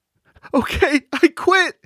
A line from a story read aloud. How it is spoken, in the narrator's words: Cheryl cried